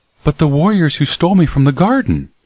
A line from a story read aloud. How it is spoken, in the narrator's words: she exclaimed